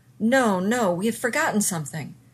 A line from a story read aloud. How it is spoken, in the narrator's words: Zelenka yelled back